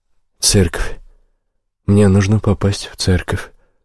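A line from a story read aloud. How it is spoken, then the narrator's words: Muttering again. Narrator (Russian): снова пробормотал я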